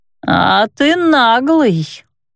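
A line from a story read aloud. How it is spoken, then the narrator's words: Husky, older voice. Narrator (Russian): с хрипотцой, выдававшей истинный возраст, произнесла она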